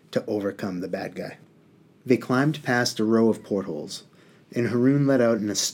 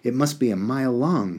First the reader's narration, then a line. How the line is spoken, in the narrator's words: he exclaimed